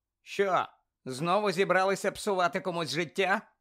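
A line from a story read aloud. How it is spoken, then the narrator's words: Loud question. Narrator (Ukrainian): голосно запитав Гаррі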